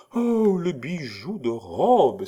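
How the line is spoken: Exclaimed. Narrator (French): s'écria Marie

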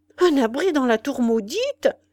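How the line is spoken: Old man exclaiming. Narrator (French): s'écria le vieillard

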